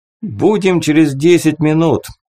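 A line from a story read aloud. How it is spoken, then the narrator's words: Shout. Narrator (Russian): крикнул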